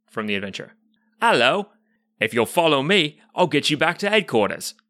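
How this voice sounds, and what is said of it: Exaggerated British accent, verging on Australian. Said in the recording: “greet you in character as a British man ... As you can hear by my accent, which was fading slightly toward the end, this gentleman is so British that he is verging dangerously on Australian when it comes to his speech patterns”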